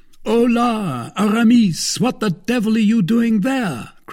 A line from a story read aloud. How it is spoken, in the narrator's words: cried the two friends